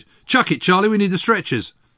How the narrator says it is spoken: a medical orderly came running out and shouted

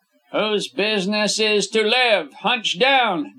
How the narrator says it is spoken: Davies yelled in Wemple's ear

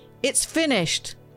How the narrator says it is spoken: Jesus shouted out in a loud voice

